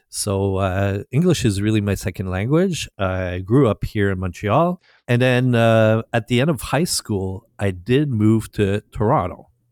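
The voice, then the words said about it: Slight French Canadian accent. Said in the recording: “my slight accent, I'm a French Canadian, or as we say here, a Quebecois”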